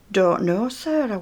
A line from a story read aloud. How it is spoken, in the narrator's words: I whispered